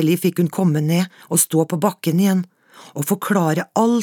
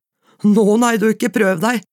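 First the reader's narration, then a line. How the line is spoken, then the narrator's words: Said, laughing loudly. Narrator (Norwegian): sa han, og lo høyt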